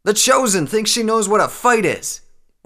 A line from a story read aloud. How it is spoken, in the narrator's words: exclaimed